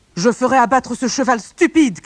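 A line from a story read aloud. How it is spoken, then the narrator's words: Father shouting. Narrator (French): cria le père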